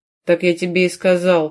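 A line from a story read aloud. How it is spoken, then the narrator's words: Warrior's growl. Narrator (Russian): прорычал воин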